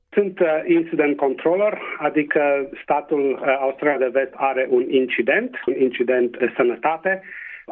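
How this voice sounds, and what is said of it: Transylvanian Romanian accent. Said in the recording (Romanian): “cu accent ardelenesc”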